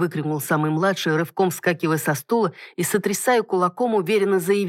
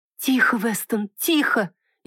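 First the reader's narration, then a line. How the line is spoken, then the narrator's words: Frightened whisper. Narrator (Russian): испуганно зашептала леди Мирон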